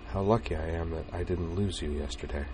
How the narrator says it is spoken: she said quietly

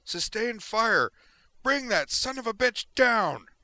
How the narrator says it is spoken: yelled to her comrades

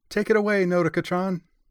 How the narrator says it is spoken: she cried

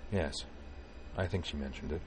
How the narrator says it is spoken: his voice impassive as he replied

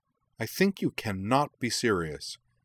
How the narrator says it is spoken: she said sharply

